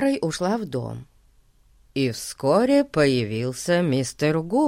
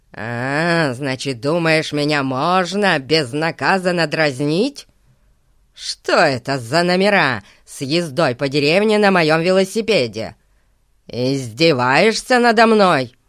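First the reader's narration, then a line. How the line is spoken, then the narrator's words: Menacing voice. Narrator (Russian): сказал страшным голосом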